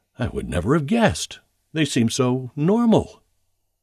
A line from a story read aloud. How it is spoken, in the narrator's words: appear shocked when an acquaintance is arrested and almost always exclaim